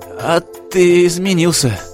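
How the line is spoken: Trembling, spitting blood. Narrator (Russian): дрожащим голосом проговорил Стас, сплевывая кровавую слюну

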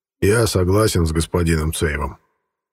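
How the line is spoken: Calm firm voice. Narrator (Russian): спокойным, но твердым голосом поддержал промышленника Бейх

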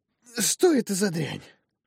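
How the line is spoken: Hoarse whisper. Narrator (Russian): осипшим голосом прошептала она

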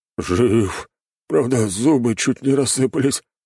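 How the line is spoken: Hoarse wheeze. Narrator (Russian): прохрипел спецназовец

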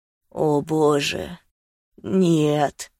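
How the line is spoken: Moan. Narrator (Russian): простонал я

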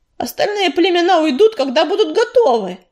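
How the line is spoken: Snapping retort. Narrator (Russian): огрызнулся Дым

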